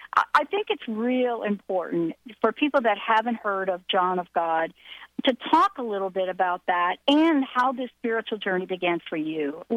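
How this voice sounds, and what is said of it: Slight New York accent. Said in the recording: “I've got my little New York accent because I still got that little overflow going on.”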